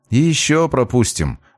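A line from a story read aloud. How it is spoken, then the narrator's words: Gloomy agreement. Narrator (Russian): мрачно поддакнул здоровяк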